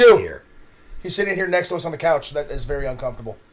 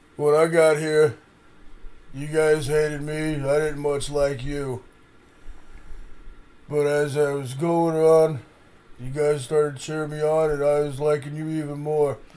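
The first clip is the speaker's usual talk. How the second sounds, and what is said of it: Imitates another person's voice. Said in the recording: “celebrity impersonation. We do not really have Stallone”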